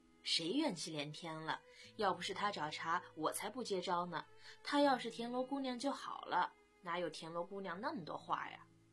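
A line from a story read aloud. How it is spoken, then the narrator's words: Laughing. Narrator (Chinese): 飞宇笑道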